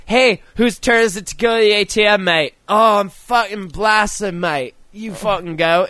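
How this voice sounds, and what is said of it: Weak put-on Australian accent. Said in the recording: “My Australian accent sounds much like my English accent”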